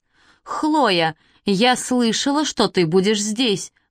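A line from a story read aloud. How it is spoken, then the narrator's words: Girl exclaiming. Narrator (Russian): воскликнула какая-то девчонка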